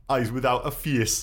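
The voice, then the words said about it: Put-on Geordie accent. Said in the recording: “this is a film title that would work very well in a Geordie accent.”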